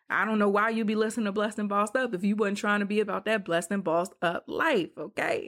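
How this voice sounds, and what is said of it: Rapper-style voice. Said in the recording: “In my rapper voice.”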